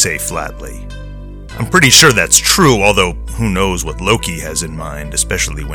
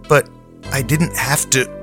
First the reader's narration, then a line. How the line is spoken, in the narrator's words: Arissa stammers, half to herself